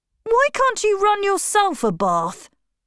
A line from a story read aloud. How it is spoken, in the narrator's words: snapped Bruno